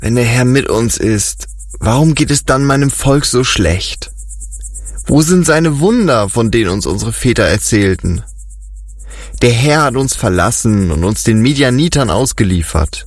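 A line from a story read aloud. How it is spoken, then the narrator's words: Sad reply. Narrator (German): Gideon schüttelte traurig den Kopf und erwiderte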